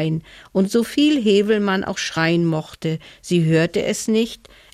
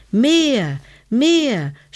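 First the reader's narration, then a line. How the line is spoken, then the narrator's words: Shouted. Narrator (German): schrie Hevelmann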